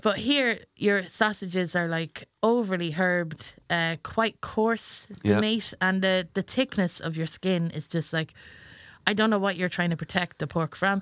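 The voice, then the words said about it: Irish accent. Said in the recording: “I would consider myself to be from Ireland because my accent”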